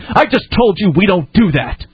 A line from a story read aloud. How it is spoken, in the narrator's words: The woman interrupted, yelling